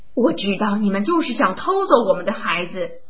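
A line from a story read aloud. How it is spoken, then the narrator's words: Woman yelling frantically. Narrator (Chinese): 女人根本就不信，她像疯了一样地嚷道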